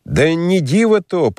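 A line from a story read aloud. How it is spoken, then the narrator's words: Loud public proclamation. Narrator (Russian): продолжал архиерей опять громко во всеуслышание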